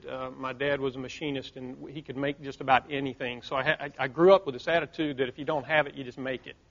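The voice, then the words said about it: Southern US rural accent. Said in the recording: “I'm a small town kid from the South, if you can't tell by the accent, country boy”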